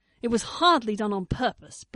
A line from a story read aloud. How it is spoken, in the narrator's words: Blake snapped back, shivering again